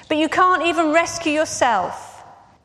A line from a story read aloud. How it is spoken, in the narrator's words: people shouted